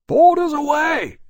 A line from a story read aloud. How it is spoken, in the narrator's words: he shouted, with a low, sinking feeling in his belly